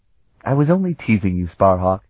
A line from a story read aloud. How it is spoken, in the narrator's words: she laughed